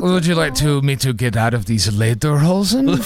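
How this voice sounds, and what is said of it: Poor put-on German accent. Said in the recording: “My accent's not good.”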